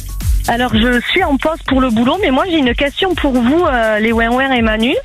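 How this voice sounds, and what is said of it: Noticeable regional French accent. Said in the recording (French): “rapport à l'accent”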